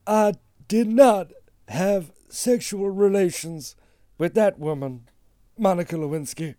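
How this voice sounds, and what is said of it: Imitates another person's voice. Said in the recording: “do an impression of Bill Clinton ... It's going to be terrible. ... That wasn't that good.”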